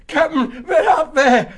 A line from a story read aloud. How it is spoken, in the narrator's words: he said wildly